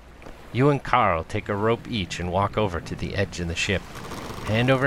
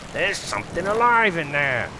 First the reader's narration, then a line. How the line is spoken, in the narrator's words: shouts